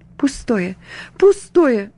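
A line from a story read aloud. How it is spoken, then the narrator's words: Sighing through tears. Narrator (Russian): вздыхала она наконец сквозь слезы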